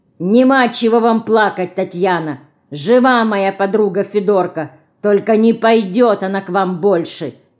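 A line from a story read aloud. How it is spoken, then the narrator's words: Angry girl. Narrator (Russian): сердито говорит Динка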